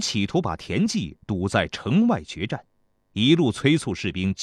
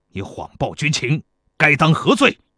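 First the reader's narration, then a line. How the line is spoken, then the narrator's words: Furious demand. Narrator (Chinese): 庞涓恼羞成怒，怒气冲冲地质问报信的细作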